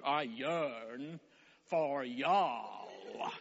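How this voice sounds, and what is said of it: Put-on Texan accent. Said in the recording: “you can only say this in a Texan accent, can't you? ... was that better, Colton? Slightly, okay. ... my y'all. Apparently, it's a one-syllable word.”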